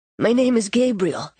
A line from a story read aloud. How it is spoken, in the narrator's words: he said